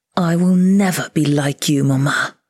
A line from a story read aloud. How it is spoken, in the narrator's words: I snarled